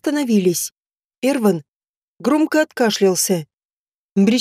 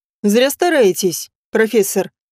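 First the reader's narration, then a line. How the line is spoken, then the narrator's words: Mocking. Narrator (Russian): насмешливо сказал Эрван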